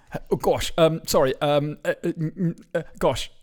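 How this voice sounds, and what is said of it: Very English posh accent imitation. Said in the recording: “Very English. Hello, be Hugh Grant ... that's my Hugh Grant ... Yeah, that's really good.”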